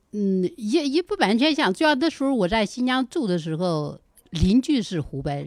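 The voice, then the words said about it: Regional accent, Hubei and Henan traces. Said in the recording (Chinese): “你跟这湖北的口音真有点像哎 ... 来点湖北口音 ... 刚才又有点透露点河南的味道了”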